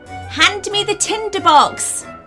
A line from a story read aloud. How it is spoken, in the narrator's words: said the witch excitedly